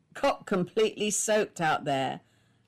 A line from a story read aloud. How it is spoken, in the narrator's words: laughed her husband